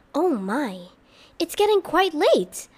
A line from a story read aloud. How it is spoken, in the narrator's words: Iris exclaimed